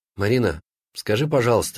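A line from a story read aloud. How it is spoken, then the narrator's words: Very sad question. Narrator (Russian): спросил очень печально Саша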